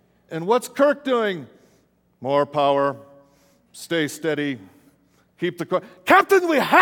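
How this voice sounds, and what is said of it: Usual voice. Nothing is said of it.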